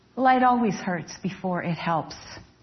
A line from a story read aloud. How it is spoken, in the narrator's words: he answered